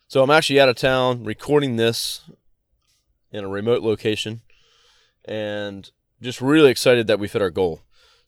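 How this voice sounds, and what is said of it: Scratchy, slightly sick voice. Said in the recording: “I'm a little bit sick as well while I'm recording this, so my voice is a little scratchy”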